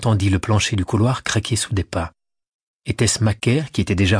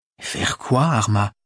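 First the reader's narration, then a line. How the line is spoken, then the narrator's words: Stammered. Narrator (French): balbutia Anastasia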